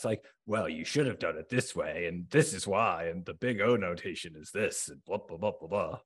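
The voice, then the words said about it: Mock male voice. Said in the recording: “I'm doing a male voice”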